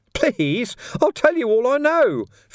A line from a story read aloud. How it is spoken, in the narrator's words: Ferret squeaked